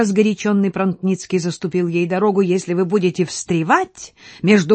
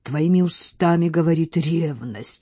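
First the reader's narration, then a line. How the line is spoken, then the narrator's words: Whispered. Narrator (Russian): шепнул он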